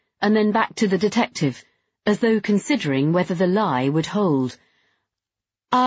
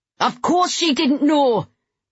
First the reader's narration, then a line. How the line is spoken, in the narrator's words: Patrick shouted suddenly